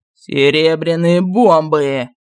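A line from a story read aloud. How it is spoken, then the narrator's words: King's furious roar. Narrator (Russian): зарычал царь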